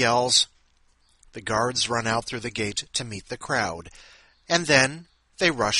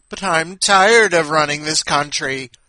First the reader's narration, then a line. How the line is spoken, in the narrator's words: the tyrant whined